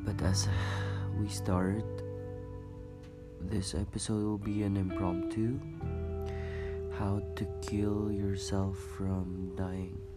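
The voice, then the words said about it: Rough, unwell-sounding voice. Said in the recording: “coughing a little bit ... my voice is this way right now. It sounds bad actually”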